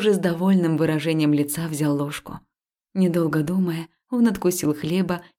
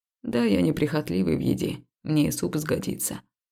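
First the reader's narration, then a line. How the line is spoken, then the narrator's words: Mumbling. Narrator (Russian): промямлил он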